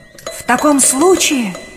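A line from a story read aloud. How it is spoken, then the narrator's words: Dignified exclamation. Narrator (Russian): воскликнул Пиноккио с достоинством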